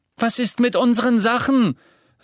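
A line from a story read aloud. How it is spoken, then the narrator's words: Girl calling. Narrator (German): rief ein Mädchen am Ravenclaw-Tisch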